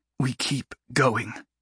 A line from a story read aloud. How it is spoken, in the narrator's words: Sophie said, her voice strained with the pain